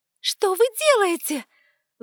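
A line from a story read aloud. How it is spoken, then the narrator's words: Startled squeal. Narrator (Russian): взвизгнула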